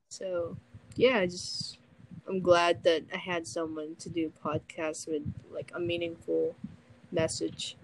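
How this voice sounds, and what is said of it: Strained, fading voice. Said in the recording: “My voice is, like, dying.”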